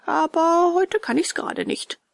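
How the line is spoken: Mocking. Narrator (German): spottete ihn dieser aus

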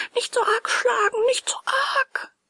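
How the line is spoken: Pitiful whimper, tiny voice. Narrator (German): wimmerte erbärmlich ein zartes Stimmchen

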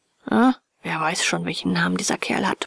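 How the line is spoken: Grumbling. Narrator (German): brummte der Hotelier

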